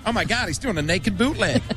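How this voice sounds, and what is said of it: Put-on Californian accent. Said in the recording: “the lovely people from California ... I'll do it in the accent.”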